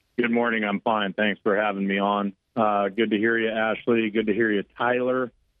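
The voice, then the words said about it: Recognizable radio voice. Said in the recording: “Radio voice.”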